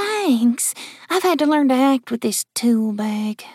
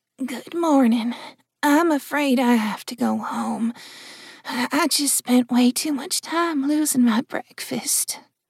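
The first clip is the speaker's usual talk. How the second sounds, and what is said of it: Hoarse, muttered sick-sounding voice. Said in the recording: “muttered Jill in a hoarse voice ... Hey, that actually sounded real.”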